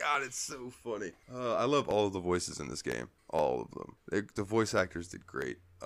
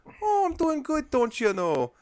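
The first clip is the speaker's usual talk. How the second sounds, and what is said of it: Put-on Wisconsin Midwestern accent. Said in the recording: “she's got super like uh what is it Wisconsin like that area ... a very yeah, cute Midwestern thing. accent”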